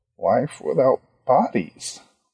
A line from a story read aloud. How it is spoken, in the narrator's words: Ronnie muttered